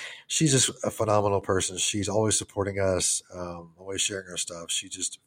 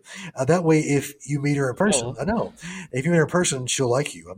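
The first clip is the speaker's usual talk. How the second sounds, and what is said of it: Choked-up, emotional voice. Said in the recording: “I'm all choked up here. ... I was like choked up there and it got to me.”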